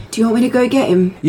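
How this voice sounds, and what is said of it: Whispering. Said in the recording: “I'm going to whisper”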